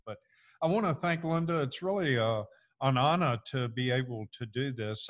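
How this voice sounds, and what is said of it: Mixed Virginia-Georgia Southern accent. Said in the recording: “I was born and raised in Virginia, lived in Georgia, so I have a crazy accent. So a lot of people think I'm from Louisiana, but I'm not.”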